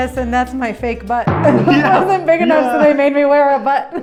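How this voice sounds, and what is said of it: Usual voice. Nothing is said of it.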